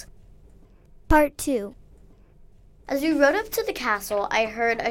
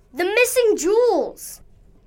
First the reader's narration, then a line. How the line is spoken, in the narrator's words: Suddenly, Iris shouted out